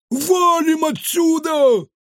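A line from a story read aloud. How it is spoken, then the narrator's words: Yelling. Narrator (Russian): завопил Кефир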